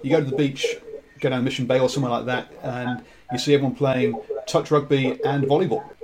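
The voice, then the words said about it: English accent. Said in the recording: “my accent, I'm English”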